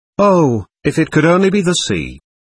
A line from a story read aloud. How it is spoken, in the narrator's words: she exclaimed wistfully